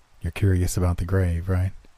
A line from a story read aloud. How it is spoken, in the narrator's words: murmured